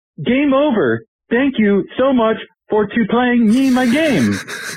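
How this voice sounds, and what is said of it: Super Mario character voice. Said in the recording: “my best Mario impression ... That's pretty good.”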